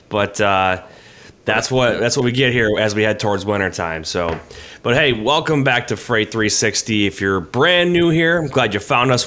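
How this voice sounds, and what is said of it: Nasal, congested voice. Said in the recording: “Everyone's getting sick, though. I don't know if you can hear it in my voice. I'm a little nasally today. I'm just getting over a cold.”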